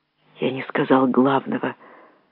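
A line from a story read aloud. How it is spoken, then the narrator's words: Old man whispering. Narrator (Russian): прошептал старик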